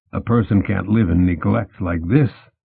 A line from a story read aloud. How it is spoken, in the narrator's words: she said